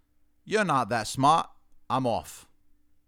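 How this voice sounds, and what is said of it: Put-on British accent. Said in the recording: “in a British accent said”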